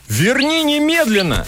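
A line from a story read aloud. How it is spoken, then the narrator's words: Shout. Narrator (Russian): закричал Гонец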